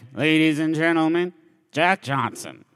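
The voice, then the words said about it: Flat, unexcited imitation of another person. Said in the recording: “my impression of ... chill, no excitement, grim mask of death for a face.”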